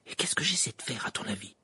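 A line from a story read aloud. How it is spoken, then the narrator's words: Whispering. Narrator (French): chuchota-t-elle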